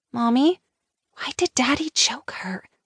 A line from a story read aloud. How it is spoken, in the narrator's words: She whispered loudly, her big blue eyes filling with tears